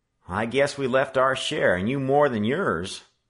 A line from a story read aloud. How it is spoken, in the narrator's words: laughed Charlie